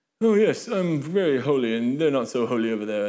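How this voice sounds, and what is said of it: Pompous put-on British accent. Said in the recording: “I don't know why it sounded British ... a room full of British people with accents ... I can't even do the pompous in American anymore”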